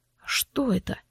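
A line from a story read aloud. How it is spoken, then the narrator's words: Gloomy question. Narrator (Russian): мрачно поинтересовался Влад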